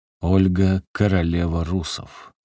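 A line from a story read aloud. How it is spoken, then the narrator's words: Solemn and quiet. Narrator (Russian): торжественно и тихо произнес великий киевский князь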